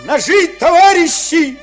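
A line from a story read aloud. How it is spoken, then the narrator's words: Shout. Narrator (Russian): крикнул Лойка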